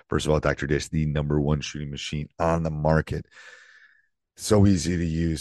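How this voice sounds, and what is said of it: Croaky, strained voice. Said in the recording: “apologize for my voice ... so it doesn't sound like Kermit the Frog”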